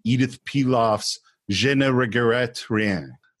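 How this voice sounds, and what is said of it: Bad put-on French accent. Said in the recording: “That was my terrible French accent.”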